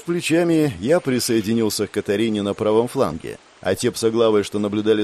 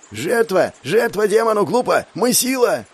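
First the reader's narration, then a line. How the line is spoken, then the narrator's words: Shrill hoarse shout, chief. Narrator (Russian): Раздался визгливо-хрипловатый крик вождя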